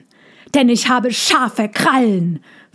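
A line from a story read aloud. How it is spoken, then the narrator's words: Hissing. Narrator (German): fauchte er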